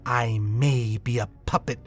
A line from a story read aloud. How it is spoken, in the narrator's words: she snarled